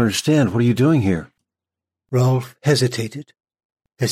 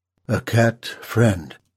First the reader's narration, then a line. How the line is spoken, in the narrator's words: Rolf said quietly